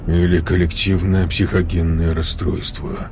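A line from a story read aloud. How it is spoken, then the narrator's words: Gloomy remark. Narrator (Russian): мрачно добавил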